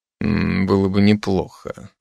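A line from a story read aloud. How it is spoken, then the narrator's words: Muttering. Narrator (Russian): пробормотал Райзен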